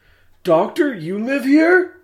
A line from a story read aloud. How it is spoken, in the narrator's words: Adam gasped